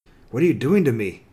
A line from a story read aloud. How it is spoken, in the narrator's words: He said, his tone harsh, more harsh than he intended